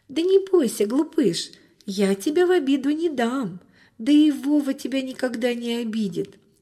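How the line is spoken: Laughing, soothing girl. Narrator (Russian): засмеялась девочка, успокаивая питомца

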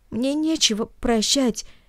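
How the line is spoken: Sobbing speech. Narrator (Russian): всхлипнув, сказал Наэль

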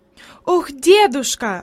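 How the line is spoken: Female exclamation while moving. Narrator (Russian): воскликнула она еще на ходу

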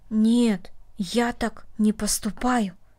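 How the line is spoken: Quiet. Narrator (Russian): тихо сказал Дина

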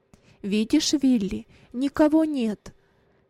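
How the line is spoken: Plain. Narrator (Russian): сказал он

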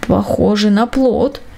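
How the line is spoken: Lazy mutter. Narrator (Russian): пробормотал он лениво

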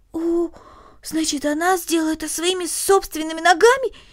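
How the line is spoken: Exclaiming. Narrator (Russian): воскликнула Корнелли

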